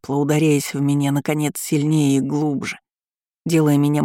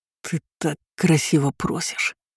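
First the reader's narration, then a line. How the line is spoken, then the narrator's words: Whisper. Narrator (Russian): прошептал он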